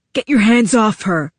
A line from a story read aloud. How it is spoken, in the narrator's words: I heard Tack growl